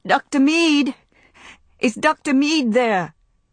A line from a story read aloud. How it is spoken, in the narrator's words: cried as loudly as she could